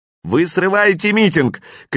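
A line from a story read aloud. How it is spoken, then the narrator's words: Woman shouting. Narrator (Russian): кричала какая-то женщина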